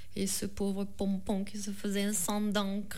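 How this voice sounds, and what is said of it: Sing-song Southern French accent. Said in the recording (French): “l'accent du Sud, l'accent de ... C'est beaucoup moins chantant finalement, oui, quand il n'y a pas d'accent.”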